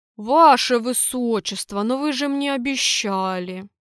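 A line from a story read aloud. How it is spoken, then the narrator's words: Hurt booming voice. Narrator (Russian): обиженно прогудел воевода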